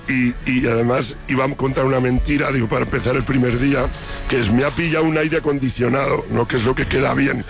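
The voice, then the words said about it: Hoarse, voiceless voice. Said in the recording (Spanish): “esa voz como la tienes ... estoy afónico”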